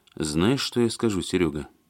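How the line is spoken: Thoughtful pronouncement. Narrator (Russian): задумчиво изрек Алексей

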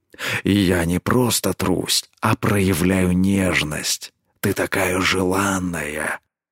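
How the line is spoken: Quiet growl. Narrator (Russian): Тихо рыкнул он

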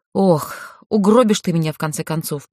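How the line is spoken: Grumbling. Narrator (Russian): проворчала она

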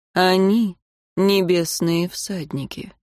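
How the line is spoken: Calm reply. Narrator (Russian): спокойно ответил магистр

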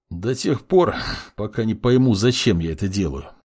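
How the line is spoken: Snorting young man. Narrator (Russian): фыркнул парень

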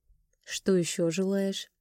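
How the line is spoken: Muttered while kissing. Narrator (Russian): пробормотал, целуя меня

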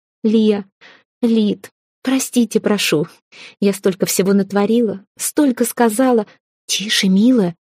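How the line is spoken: Soothing whisper. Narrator (Russian): прошептал Брис, успокаивающе

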